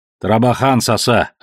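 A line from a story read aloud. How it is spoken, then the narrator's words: Snappish retort. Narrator (Russian): огрызнулся тот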